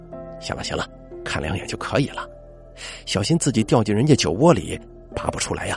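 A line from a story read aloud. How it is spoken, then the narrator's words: Grinning, low voice. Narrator (Chinese): 华五叔忍不住咧嘴一笑，低声说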